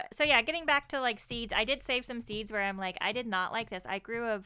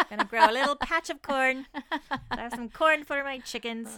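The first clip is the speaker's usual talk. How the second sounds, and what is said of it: Put-on Irish accent. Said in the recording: “I don't know why I have to be sounding Irish for a second.”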